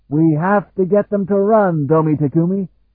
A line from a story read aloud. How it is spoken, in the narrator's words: Kring shouted to his friend as they galloped clear of the massed Seergai regiments again